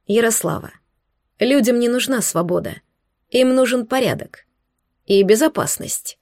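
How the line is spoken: Plain. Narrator (Russian): ответил Соловей

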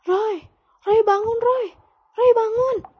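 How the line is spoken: Father shouting. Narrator (Indonesian): bapak saya teriak

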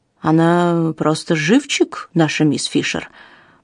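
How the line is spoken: Muttering. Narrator (Russian): пробормотал господин Батлер

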